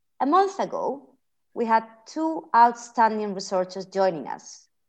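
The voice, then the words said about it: Spanish accent. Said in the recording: “as you can hear by my accent, I'm also the CER's resident Spaniard”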